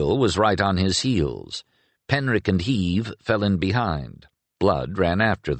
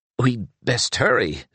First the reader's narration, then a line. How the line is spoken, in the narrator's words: said Gallen in a voice choked with alarm